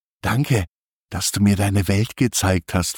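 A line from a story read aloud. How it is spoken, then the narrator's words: Whisper. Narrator (German): flüstert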